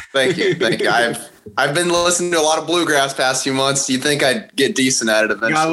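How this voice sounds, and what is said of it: Usual voice. Nothing is said of it.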